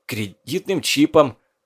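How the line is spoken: Wheezing, struggling to breathe. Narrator (Russian): Силясь вздохнуть, прохрипел Кейс

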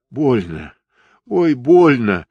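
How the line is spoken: Wounded man groaning. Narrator (Russian): стонал раненый

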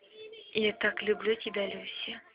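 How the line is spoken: Whisper. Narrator (Russian): шепнул он ей

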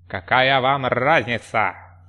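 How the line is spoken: Snorting. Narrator (Russian): Фыркнул он в конце концов

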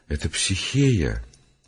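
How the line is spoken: Quiet, ashamed. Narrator (Russian): Совестись произнес тихо

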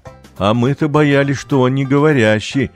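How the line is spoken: Laughing. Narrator (Russian): засмеялся папа

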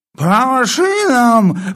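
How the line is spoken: Sudden roar while asleep. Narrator (Russian): взревел вдруг полковник, не просыпаясь

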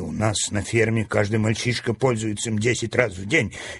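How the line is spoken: Angry grumble. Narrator (Russian): Сердито пробурчал он

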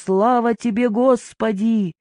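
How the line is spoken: Shouting at full voice. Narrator (Russian): Иоанн на коленях отбивал поклоны, крестился и кричал во все горло

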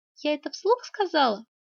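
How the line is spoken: Plain. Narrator (Russian): спросила Оксана

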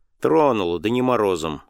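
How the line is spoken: Curt, clipped. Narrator (Russian): отрывисто сказал Павел Антонович

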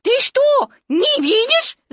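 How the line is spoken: Shouting. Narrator (Russian): закричал пятачок

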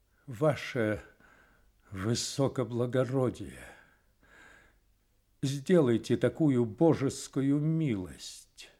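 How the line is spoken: Tearful trembling voice. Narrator (Russian): Слезы навернулись на глазах, и он дрожащим голосом произнес

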